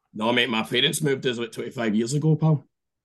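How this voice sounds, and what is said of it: Scottish accent. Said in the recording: “And you've still got that accent? ... Wow, fucking good on you, man, for keeping that. ... you guys keep me Scottish”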